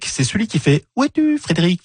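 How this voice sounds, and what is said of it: Imitates a songbird's call. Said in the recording (French): “Ah, très belle imitation. ... C'est le seul oiseau que j'arrive à imiter.”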